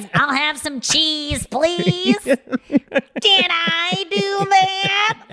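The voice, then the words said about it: Good Steve Urkel impression. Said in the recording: “that's actually a good impression. I think I just did a good Urkel. ... it was a very good Urkel.”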